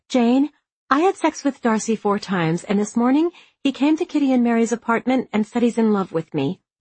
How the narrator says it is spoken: Liz blurted out

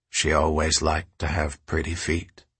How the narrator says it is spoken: the man said quietly

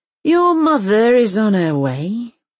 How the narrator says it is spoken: he says to Elsa with a sigh

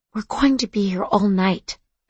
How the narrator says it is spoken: I whispered to my mom

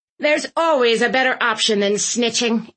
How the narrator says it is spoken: Aunt Tilly snapped

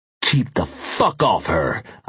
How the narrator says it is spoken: I snarled

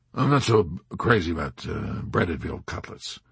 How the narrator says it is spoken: grumbled the skeptical B-25 commander

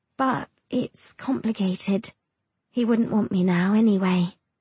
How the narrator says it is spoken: she says, her voice sounding defeated

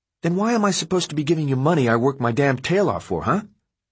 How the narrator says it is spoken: Runner said, his voice bitter

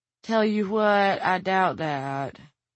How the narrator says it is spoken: she responded in a drawl that could, and probably did, come straight from the Tulies of Bridger County

